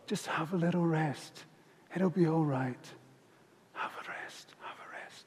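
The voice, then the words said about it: Soft whisper. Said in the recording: “you just hear this sort of little whisper”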